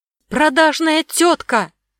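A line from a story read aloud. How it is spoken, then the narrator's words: Shouted outburst. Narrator (Russian): выкрикнул Баян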